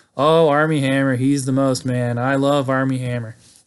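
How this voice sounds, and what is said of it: Imitates another person's voice. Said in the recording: “I'll do my best Dutch impersonation ... There's my Dutch impersonation.”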